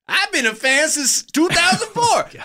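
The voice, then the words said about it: Poor Chris Rock impression. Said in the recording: “that's my terrible Chris Rock version ... Jimmy Fallon can do a better Chris Rock than me”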